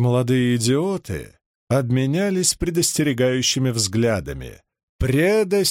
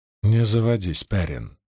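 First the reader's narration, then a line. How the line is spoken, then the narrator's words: Whisper. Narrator (Russian): прошептала Мин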